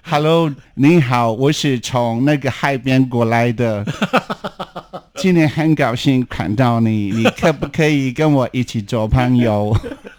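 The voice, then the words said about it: American missionary accent speaking Chinese. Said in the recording (Chinese): “我模仿他们讲中文”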